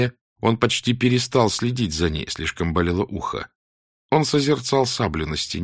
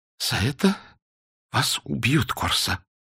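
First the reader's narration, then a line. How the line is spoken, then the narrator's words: Mumbled. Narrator (Russian): разобрал он, наконец, ее бормотание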